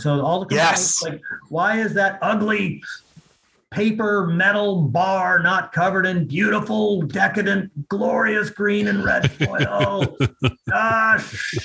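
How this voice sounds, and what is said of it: Impression of Ian. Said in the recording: “That was a good impression of Ian.”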